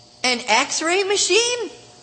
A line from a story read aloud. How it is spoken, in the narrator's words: Billy cried